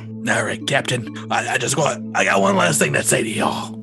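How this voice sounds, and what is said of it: Raspy character voice. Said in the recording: “talking to this Raz Jungat really kills my voice. Whew. I can't do raspy very well.”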